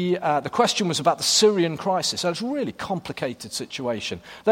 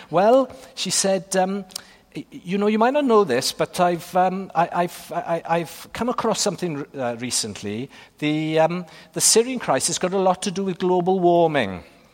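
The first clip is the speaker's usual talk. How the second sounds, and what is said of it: Put-on Welsh accent. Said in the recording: “I'm going to give you a Welsh accent here.”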